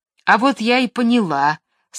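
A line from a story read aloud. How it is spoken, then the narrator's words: Angry. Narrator (Russian): сказала сердито Маша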